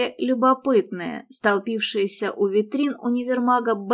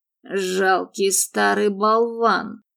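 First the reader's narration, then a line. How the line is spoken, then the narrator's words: Through gritted teeth. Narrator (Russian): процедил он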